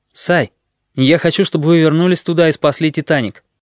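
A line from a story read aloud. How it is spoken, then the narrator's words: Abrupt sharp tone. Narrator (Russian): безо всякого перехода, словно прекращая бессмысленную пустяшную болтовню, резко произнес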